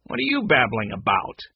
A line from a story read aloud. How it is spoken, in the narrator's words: Mac asked harshly